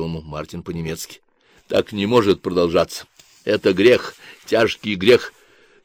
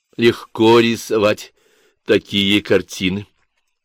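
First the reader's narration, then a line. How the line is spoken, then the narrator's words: Giggle. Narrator (Russian): хихикнул Толя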